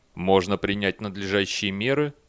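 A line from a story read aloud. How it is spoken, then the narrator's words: Plain robot voice. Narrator (Russian): сказал робот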